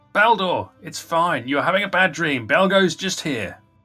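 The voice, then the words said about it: Loud calling-out voice. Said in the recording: “I'll call out in a loud voice.”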